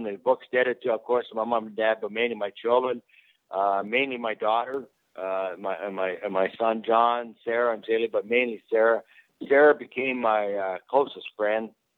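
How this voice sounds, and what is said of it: Teary, emotional voice. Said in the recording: “I get a little teary right now”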